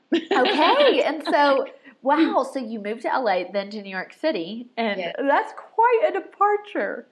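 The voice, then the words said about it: Southern US (Tennessee) accent. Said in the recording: “I'm a Tennessee girl. This is not a Colorado accent.”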